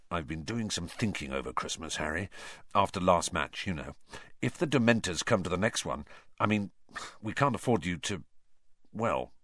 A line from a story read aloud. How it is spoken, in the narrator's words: he said, lowered his voice, and said